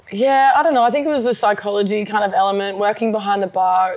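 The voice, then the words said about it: Broad ocker Australian accent. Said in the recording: “I'm a bit of an ocker. ... Got the accent.”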